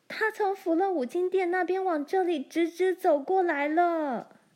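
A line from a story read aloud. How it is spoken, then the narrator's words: Calling out. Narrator (Chinese): 玲玲叫道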